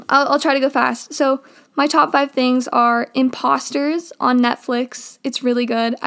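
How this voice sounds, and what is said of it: Dry, strained, failing voice. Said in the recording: “My voice is really dry and weird right now ... My voice is like totally dying on me.”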